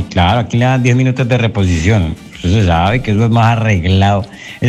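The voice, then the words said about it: Colombian Caleño Spanish accent. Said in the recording (Spanish): “ese acento tan lindo”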